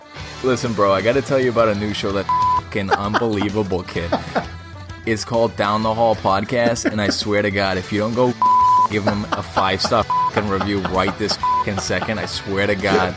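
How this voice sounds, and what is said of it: Put-on South Boston accent. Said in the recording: “your South Boston, a.k.a. Marky Mark Wahlberg, Boston accent”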